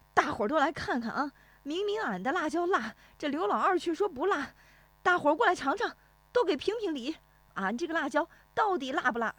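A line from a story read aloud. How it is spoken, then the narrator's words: Exasperated shouting to crowd. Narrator (Chinese): 俺爷爷是既无奈又心疼，冲着来往的赶集的人喊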